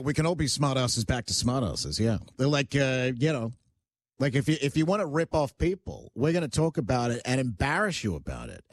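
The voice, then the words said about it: Australian accent mixed with North American. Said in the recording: “It's more think of transatlantic. No, it's definitely Australia, but it's mixed with North American as well. It's like a 50-50.”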